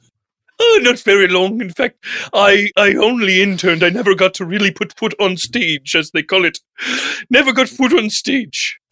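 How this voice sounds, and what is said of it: Intense hoity-toity headmaster-like voice. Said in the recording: “you're coming off a little intense ... a little hoity-toity, a little headmaster, headmaster-ish”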